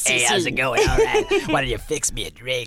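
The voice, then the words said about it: Voice like someone with a tracheotomy. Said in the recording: “You sound like you're doing a very insensitive impression of somebody with a tracheotomy.”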